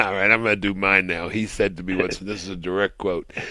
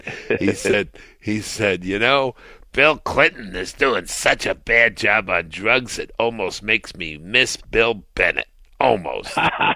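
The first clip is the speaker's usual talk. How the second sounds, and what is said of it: Imitates another person's voice. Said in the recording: “That was a good imitation of Charlie ... I'm not Harlem, I'm Brooklyn, but it's close enough.”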